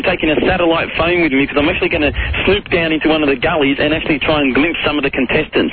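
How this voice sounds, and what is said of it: Australian accent. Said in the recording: “I've got an accent ... .au ... for Australia”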